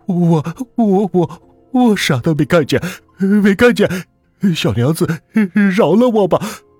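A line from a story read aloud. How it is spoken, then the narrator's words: Dazed, woeful, stammering. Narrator (Chinese): 他的弟弟刘友善呆滞的，这才是清醒过来，哭丧着一张脸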